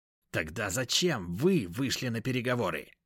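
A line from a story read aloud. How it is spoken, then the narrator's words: Through gritted teeth. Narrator (Russian): процедил гном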